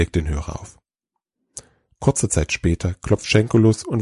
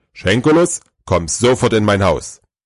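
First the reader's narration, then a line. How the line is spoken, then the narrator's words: Loud, firm Santa. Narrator (German): Der Weihnachtsmann spricht laut und unmissverständlich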